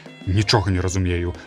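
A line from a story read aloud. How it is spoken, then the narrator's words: Mumbling. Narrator (Belarusian): прамармытаў ён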